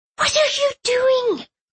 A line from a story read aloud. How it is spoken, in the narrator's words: Pumpernickel hissed